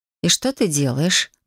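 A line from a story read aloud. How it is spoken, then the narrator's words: Gloomy question. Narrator (Russian): мрачно поинтересовалась я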